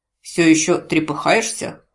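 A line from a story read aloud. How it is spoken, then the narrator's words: Cold question, templar. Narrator (Russian): холодно поинтересовался храмовник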